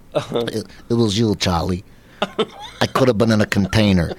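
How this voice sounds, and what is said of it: Imitates another person's voice. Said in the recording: “my impression of Marlon Brando as a tuna fish”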